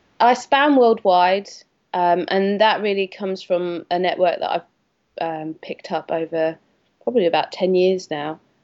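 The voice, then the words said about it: Australian accent. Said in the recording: “your strange accent and the strange reason why you left Australia”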